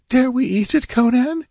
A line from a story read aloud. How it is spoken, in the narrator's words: ventured the girl nervously